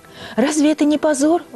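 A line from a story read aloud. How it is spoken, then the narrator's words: Exclamation. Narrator (Russian): воскликнула Люси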